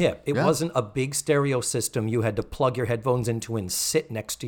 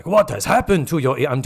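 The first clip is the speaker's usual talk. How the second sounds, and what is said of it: Weak imitation, Japanese accent. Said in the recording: “I'm doing a terrible Japanese accent. ... This is a terrible impression of Mako in this role. And this is just how he talks.”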